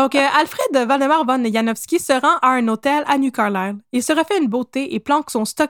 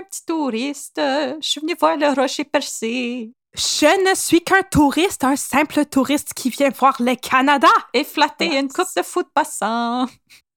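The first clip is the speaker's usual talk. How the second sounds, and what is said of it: Not-great put-on foreign accent. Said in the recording (French): “C'est pas super mon accent.”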